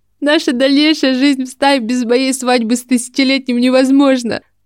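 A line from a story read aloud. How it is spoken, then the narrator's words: Sobbing. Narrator (Russian): сказала она, всхлипнув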